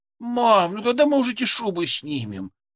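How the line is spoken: Whining. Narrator (Russian): хныкала она

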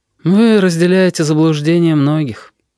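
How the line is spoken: Sighing abbot. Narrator (Russian): вздохнул настоятель Петр

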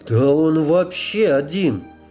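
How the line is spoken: Bewildered. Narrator (Russian): растерянно сказал Женька

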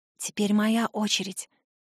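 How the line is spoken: Quiet. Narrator (Russian): тихо произношу я

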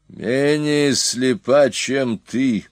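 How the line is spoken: Grim, menacing reply. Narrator (Russian): мрачно и грозно отвечал Хилхаль

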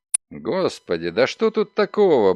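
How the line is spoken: Grumbled. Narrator (Russian): буркнул Догерти

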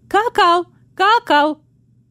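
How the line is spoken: Small animal shouting. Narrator (Russian): крикнул ей вслед медоедик

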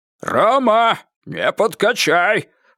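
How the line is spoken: Sudden loud speech. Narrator (Russian): вдруг громко сказал шофер

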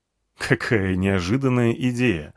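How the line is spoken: Laughing. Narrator (Russian): рассмеялся я

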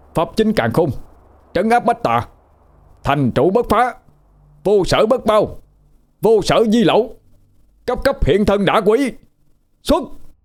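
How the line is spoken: Shouted incantation. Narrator (Vietnamese): Đô hét lên một tiếng

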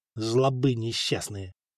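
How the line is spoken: Grumbling mutter. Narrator (Russian): пробурчал Коста

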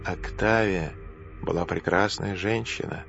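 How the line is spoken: Quiet. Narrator (Russian): тихо сказал Сенека

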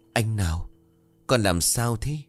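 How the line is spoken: Stunned trembling question. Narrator (Vietnamese): Ngọc chết lặng rồi run rẩy hỏi

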